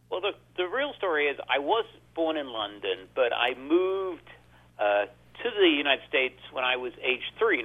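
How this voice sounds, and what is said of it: English-sounding accent. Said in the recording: “where is that accent from? England? Australia?”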